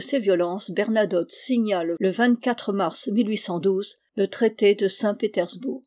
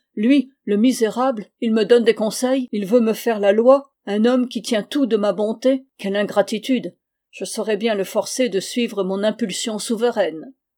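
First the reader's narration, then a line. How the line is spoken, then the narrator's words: Exclaiming. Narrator (French): Il s'écrie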